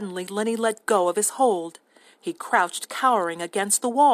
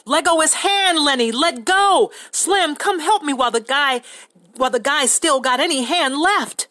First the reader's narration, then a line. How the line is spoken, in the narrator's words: George shouted over and over